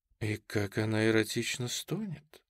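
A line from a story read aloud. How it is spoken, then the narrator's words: Whisper. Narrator (Russian): шепнула вторая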